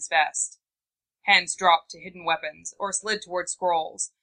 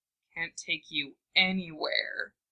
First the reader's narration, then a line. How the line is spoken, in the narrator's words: Shikaku muttered through the hand he clapped over his face